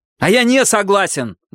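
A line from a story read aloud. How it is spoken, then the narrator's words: Shouted out. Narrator (Russian): выкрикнул он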